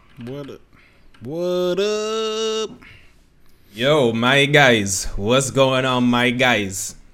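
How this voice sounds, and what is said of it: Put-on New Jersey accent. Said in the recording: “Was that not a Jersey accent?”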